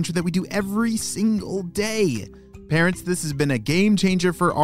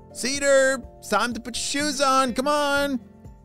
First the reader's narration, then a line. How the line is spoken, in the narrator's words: shouted his mom